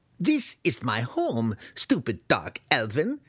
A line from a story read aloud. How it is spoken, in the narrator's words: the human spat